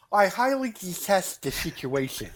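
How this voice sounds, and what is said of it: Mocking incel character voice. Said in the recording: “You always do a good incel voice... No, your incel voice is good.”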